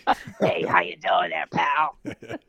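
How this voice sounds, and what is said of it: Gruff truck-driver voice. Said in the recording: “I sound like a truck driver”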